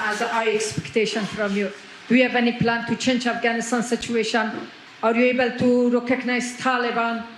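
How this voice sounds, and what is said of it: Heavily accented English, hard to understand. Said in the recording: “it's a beautiful voice and a beautiful accent. The only problem is I can't understand a word you're saying.”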